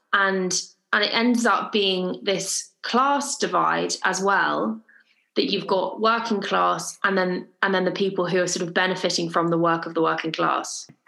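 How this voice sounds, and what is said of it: Southern English accent. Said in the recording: “my accent makes me sound like I'm from Surrey ... I sounded like I was really, really southern.”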